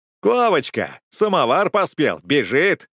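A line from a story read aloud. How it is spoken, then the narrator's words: Shout. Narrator (Russian): крикнул кто-то из летчиков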